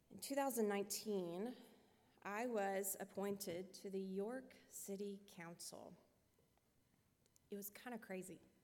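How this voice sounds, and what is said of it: Southern American accent. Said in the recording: “I am told I have a southern accent, so I don't really sound like I belong here”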